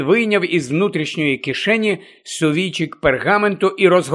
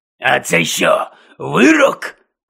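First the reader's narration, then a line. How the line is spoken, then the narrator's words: Angry question. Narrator (Ukrainian): сердито запитав Гонт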